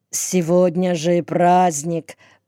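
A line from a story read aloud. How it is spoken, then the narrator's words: Mumbling. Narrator (Russian): промямлил я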